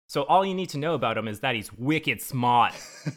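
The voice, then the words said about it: Put-on Boston accent. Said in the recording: “That was my Boston accent for you. I really hope that one sold it. ... It was really good.”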